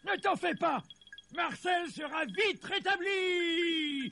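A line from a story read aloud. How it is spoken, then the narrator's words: Shouted. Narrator (French): cria le Père Noël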